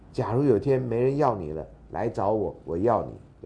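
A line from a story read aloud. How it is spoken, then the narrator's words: Quiet, soft-spoken. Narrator (Chinese): 男孩小声的说了一句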